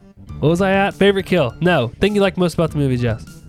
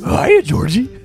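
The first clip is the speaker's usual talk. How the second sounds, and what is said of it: Pennywise impression resembling Scooby-Doo. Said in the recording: “my Pennywise impressions ... It's like a cross between Pennywise and Scooby? Cookie Monster. ... My Pennywise sounds like Scooby-Doo.”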